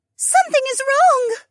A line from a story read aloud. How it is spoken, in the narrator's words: Mariah shrieked